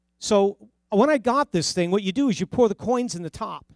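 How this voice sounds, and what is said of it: New Jersey accent. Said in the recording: “That's my New Jersey accent, sorter.”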